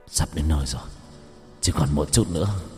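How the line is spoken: Strained mutter. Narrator (Vietnamese): hắn ta khó khăn, miệng lẩm bẩm

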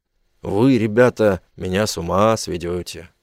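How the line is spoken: Grumbling. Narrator (Russian): проворчал он

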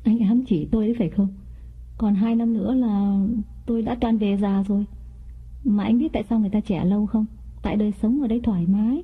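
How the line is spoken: Smiling. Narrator (Vietnamese): Mỹ mỉm cười

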